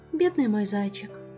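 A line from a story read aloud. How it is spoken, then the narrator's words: Young woman's sympathetic sigh. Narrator (Russian): сочувственно вздохнула девушка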